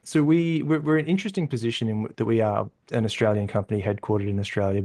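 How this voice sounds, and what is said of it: Australian accent. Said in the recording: “You guys are based out of Australia. It's as evidenced by your accent.”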